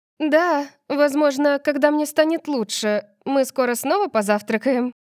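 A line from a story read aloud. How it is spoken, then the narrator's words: Called out. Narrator (Russian): крикнула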